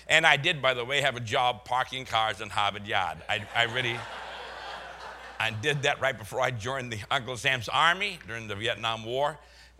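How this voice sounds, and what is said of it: Slight Boston accent. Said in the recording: “I am from Boston. You can tell a little bit by my accent. ... I have a little bit of my accent. I've lost most of mine”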